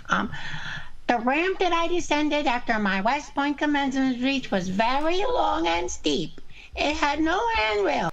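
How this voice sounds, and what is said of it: Imitates another person's voice. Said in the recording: “I've been working on different Trump voices ... do my Trump voice.”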